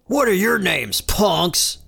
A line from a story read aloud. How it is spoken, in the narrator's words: the prisoner yells